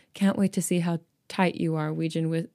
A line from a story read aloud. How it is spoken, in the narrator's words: Wien whispered in Hyejin's ear